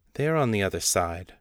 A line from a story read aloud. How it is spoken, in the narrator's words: Baal said, smoothly